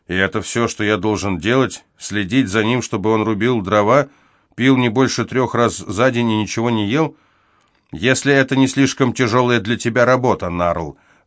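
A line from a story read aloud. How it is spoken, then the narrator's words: Even, level tone. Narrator (Russian): ровным тоном ответил отец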